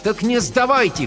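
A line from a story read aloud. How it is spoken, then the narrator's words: Shout. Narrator (Russian): крикнула я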